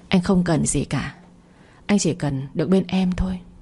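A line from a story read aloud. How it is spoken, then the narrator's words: Gentle tender voice. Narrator (Vietnamese): văng vẳng giọng nói dịu dàng như nước của Phong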